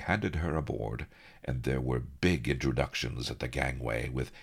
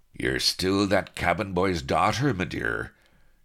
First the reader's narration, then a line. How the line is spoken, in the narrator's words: chuckled the Admiral, bluff as anything